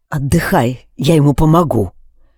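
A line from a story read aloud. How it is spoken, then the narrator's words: Whisper. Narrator (Russian): шепнул я Алексу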